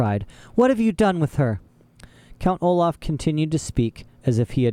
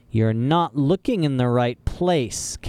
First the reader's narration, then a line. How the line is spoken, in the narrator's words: Count Olaf said